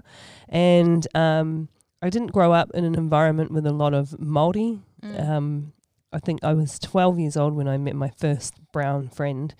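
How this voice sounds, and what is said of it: Australian accent. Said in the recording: “if it didn't sneak in my Australian accent”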